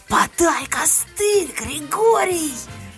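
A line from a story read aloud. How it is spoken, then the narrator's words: Howling. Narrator (Russian): я взвыла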